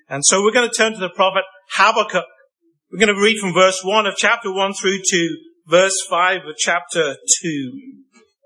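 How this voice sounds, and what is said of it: Unfamiliar accent, unusual pronunciations. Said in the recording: “I come to you with a strange accent, so you may hear strange ways that I pronounce certain words”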